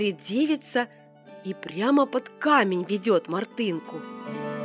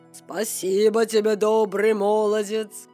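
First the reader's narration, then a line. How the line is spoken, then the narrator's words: Plain, king. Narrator (Russian): сказал царь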